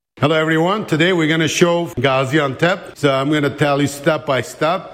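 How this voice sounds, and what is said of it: English with an American accent. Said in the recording (Turkish): “Amerikan aksanıyla”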